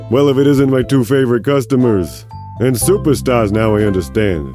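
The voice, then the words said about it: Character voice with thick accent. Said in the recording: “a burly man with a thick accent”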